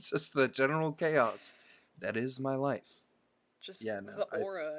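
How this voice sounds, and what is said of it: Usual voice. Nothing is said of it.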